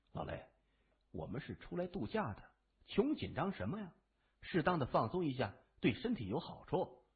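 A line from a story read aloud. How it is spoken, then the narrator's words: Quiet voice. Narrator (Chinese): 谢文东 小声的说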